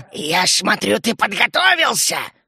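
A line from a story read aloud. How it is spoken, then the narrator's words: Growled. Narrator (Russian): рыкнула она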